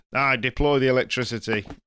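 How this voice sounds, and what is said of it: Put-on northern English accent. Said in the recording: “I decided to do a northern accent as well.”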